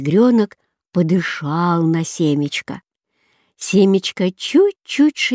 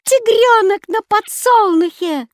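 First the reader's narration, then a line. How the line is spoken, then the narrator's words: Bird's shout. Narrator (Russian): кричала кедровка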